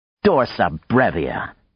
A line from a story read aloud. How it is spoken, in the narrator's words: Maya said scornfully